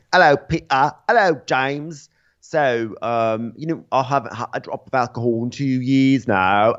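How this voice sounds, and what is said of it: Exaggerated British accent. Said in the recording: “there's a big like British accent off happening between the two of them”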